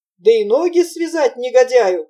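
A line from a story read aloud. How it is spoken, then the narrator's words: Excited boys shouting. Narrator (Russian): кричали мальчики в величайшем возбуждении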